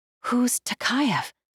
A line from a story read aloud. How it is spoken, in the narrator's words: She whispered